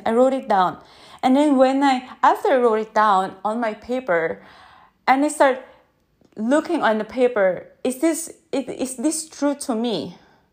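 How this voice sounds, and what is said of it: Non-native English accent. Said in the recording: “My accent ... this is my limiting belief my accent ... who cares about the accent”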